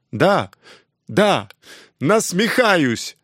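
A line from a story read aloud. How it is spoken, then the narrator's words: Sudden yell. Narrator (Russian): Внезапно заорал на нее Жан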